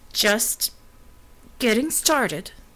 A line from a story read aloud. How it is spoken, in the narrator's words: she said through gritted teeth, fighting pain